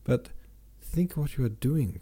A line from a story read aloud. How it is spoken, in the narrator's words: cried Sonya